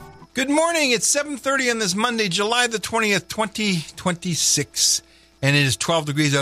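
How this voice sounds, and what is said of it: Usual voice. Nothing is said of it.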